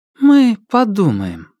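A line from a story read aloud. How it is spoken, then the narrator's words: Soft. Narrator (Russian): сказала мягко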